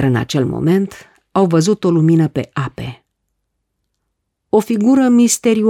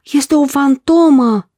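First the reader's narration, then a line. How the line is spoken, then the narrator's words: Group exclaiming. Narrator (Romanian): au exclamat ucenicii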